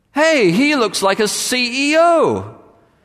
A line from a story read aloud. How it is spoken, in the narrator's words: Suddenly one of them shouted out